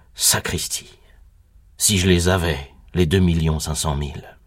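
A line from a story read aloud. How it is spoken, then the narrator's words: Murmured, struck by memory. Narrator (French): je murmurai, saisi par un brusque souvenir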